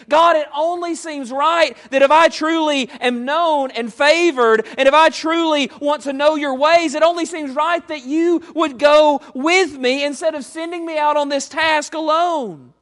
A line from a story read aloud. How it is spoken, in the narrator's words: Moses is pleading with the Lord and he's saying